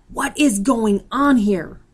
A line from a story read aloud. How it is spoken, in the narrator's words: Captain Smith bellows